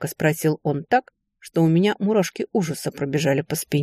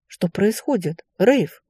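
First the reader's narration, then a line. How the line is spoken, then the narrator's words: Breathless exhale. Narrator (Russian): выдохнула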